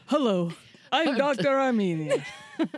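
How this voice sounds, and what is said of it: Put-on accent in a character voice. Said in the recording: “Where did you come up with that accent? That character was so original ... you're a woman of so many voices”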